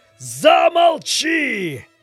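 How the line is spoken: Monk shouting. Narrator (Russian): закричал косоглазый чернец

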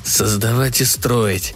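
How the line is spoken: Muttered. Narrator (Russian): бормотал

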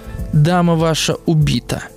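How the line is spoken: Gentle. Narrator (Russian): сказал ласково Чекалинский

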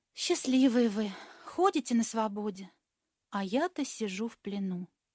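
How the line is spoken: Soft sigh, quiet. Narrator (Russian): Пака вздохнул легонечко и тихонько сказал

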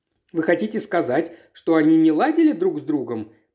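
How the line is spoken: Quick question. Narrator (Russian): быстро спросил он

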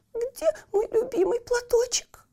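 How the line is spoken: Whimpering. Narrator (Russian): хныкала она

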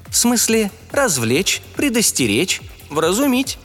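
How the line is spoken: Calm, measured, instruction-like. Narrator (Russian): спокойным размеренным голосом проговорил Реня, как будто читал инструкцию

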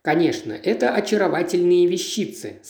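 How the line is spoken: Plain. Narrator (Russian): сказала она

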